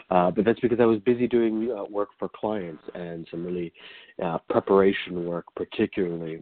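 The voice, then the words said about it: Scraggly, tired-sounding voice. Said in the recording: “I was up all night, so my voice sounds a little bit scraggly today as I have yet to go to sleep”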